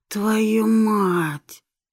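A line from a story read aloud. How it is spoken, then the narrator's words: Hoarse groan. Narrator (Russian): сипло простонал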